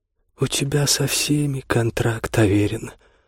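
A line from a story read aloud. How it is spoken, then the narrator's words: Said sadly. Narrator (Russian): грустно сказала она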